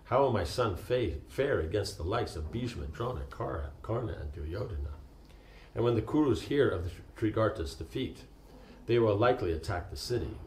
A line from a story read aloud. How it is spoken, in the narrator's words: Fearing the worst, he sighed in sorrow and said